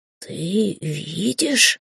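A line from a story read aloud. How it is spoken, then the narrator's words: Whispered question, cat. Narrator (Russian): шепотом спросил кот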